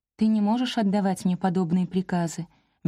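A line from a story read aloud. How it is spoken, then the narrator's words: Soft. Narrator (Russian): мягко ответила я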